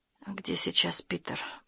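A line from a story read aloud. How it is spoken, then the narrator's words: Female whisper. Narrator (Russian): прошептала она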